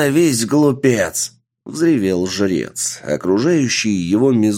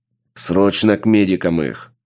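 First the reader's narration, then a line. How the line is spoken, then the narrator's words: Barking shout. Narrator (Russian): рявкнул Сергей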